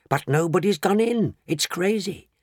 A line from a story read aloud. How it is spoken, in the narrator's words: the people shouted